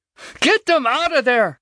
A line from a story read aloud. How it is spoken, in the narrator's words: she screamed at him